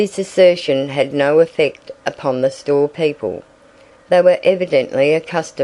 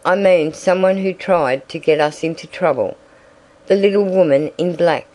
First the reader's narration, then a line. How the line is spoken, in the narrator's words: she exclaimed suddenly